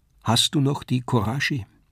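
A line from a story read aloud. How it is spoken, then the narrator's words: Sad question. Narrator (German): fragte traurig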